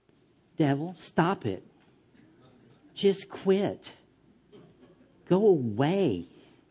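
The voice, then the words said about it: Weak, timid, wimpy voice. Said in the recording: “wimpy little voice ... There is no authority”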